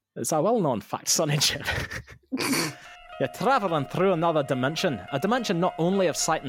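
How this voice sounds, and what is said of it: Put-on Scottish accent. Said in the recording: “how Scottish should I go? ... As Scottish, follow your heart.”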